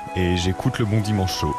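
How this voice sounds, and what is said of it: Imitates another person's voice. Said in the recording (French): “c'est l'émission préférée de Céline Dion ... Niveau imitation”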